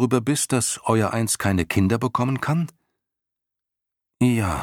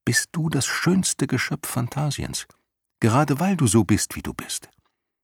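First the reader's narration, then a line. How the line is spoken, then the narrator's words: Soft speech. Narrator (German): sagte Bastian leise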